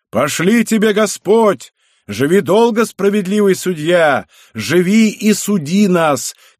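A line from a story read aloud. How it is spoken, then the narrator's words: Crowd shouting from everywhere. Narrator (Russian): кричали со всех сторон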